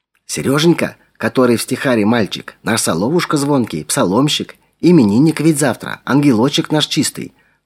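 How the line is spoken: Whispered explanation. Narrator (Russian): шепотом пояснила Клавдия Ивановна

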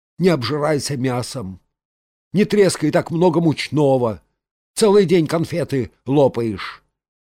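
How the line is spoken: Grumbling. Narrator (Russian): Саранин ворчал

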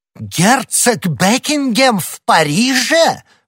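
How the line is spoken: Exclaimed. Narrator (Russian): воскликнул король

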